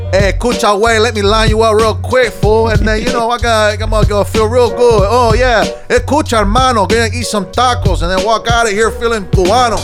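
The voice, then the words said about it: Imitates a Cuban man's accent. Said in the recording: “do an impression of a Cuban man”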